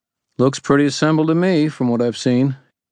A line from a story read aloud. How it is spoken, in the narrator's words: she said, her tone dry